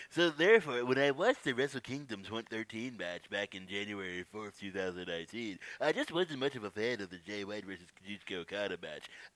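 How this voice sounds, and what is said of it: Nerdy put-on voice. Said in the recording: “You should be doing this prediction in your nerd voice.”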